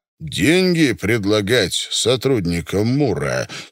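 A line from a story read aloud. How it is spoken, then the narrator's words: Stern. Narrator (Russian): строго сказал Покровский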